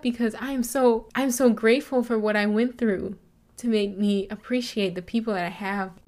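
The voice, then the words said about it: Choked-up, emotional voice. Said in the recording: “I'm getting choked up”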